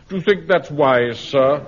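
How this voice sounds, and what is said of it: Supercilious, condescending tone. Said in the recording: “in that supercilious voice”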